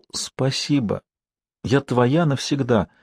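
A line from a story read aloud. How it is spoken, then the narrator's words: Barely audible whisper. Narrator (Russian): преданно и восхищенно, Яна прошептала так тихо, что он едва расслышал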